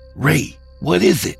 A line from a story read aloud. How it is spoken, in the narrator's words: I whispered hard in his ear